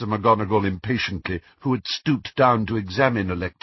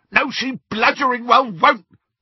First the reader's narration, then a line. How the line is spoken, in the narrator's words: bellowed Amicus